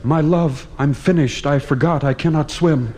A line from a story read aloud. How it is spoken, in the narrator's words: He cried